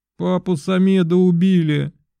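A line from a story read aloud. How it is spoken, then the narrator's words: Screaming, then loud sobbing. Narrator (Russian): закричала она и стала громко рыдать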